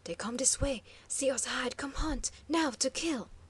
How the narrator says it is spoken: a swift voice breathed

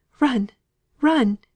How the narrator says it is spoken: gasped Margaret

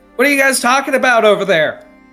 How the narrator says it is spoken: Just yells from a distance

